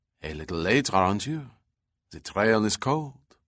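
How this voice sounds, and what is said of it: Put-on French accent. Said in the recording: “spoke in a French accent”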